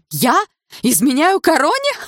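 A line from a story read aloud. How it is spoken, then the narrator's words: Elder lady's laughter. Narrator (Russian): расхохоталась старшая придворная дама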